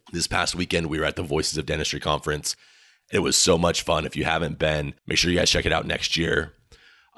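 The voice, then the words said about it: Hoarse, partly lost voice. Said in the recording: “My voice sounds terrible. I know this is probably really hurting your ears just listening to this... I lost my voice just a little bit”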